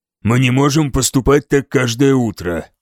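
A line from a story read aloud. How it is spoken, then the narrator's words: Grumbling. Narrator (Russian): проворчал Элфволд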